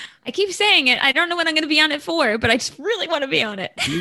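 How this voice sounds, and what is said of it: Usual voice. Nothing is said of it.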